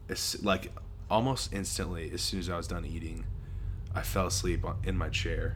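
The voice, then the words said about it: Slightly hoarse, froggy voice. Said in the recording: “I have a little bit of a frog in my throat,... because I'm sick a little bit”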